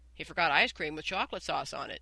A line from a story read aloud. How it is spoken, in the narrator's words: said Mary quickly